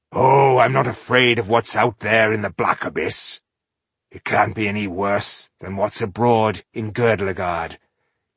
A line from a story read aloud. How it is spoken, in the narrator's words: he growled, pretending to be offended